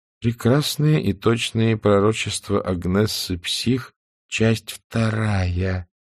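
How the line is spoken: Slow reading aloud. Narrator (Russian): медленно прочла она

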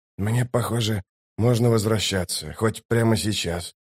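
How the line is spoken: Gruff mumble. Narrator (Russian): буркнул Ток

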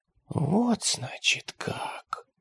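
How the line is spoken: Whisper. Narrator (Russian): прошептала она

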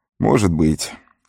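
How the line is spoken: Glum agreement. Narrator (Russian): уныло согласился Сэм

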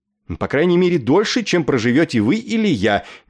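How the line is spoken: Clumsy shout. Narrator (Russian): нескладно выкрикнул Нетли

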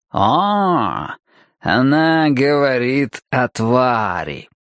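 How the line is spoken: Drawn-out, pointedly meaningful. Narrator (Russian): нарочито многозначительно протянул Стемпер

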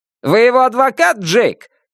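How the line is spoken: Shouted across the room. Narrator (Russian): крикнул Кен Нагент через 3 стола

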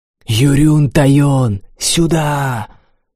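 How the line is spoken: Boy's loud whisper. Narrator (Russian): Мальчишка кричал шепотом

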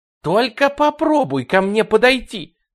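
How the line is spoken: Shouting. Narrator (Russian): крикнула Люси

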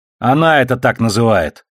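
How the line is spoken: Snapping retort. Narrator (Russian): огрызнулась в ответ Бобби

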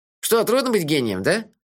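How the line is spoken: Snide question. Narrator (Russian): ехидно спросил Мелифара

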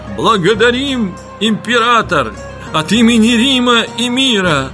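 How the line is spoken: Exclaiming. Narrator (Russian): воскликнул Домицы Аф

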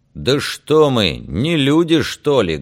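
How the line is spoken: Loud question. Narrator (Russian): громко спросил Феликс

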